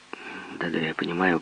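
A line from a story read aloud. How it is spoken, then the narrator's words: Muttering. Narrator (Russian): пробормотал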